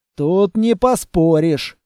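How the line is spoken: Wry snort. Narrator (Russian): хмыкнул аудитор

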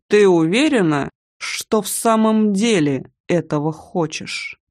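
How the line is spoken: Husky, seductive voice. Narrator (Russian): Его голос, наполненный обещанием и сексуальной хрипотцой

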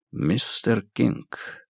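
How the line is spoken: Quiet. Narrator (Russian): негромко произнес Сигерсон

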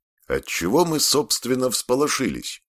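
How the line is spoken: Cheerful. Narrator (Russian): бодро сказал он

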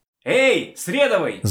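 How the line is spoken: Shout from spacesuit. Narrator (Russian): закричал тот в скафандре

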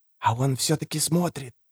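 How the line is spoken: Breathless child's whisper. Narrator (Russian): шептал, чуть дыша, мальчик

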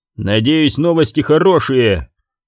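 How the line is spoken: Growl. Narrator (Russian): прорычал он

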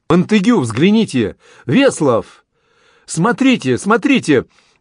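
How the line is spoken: Excited admiring exclamation, young man. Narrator (Russian): воскликнул переполненный восхищением молодой офицер

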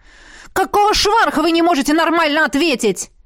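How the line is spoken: Shouted after someone. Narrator (Russian): крикнул вдогонку

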